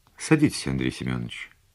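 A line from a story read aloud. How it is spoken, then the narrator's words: Calm. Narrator (Russian): спокойно сказала подполковник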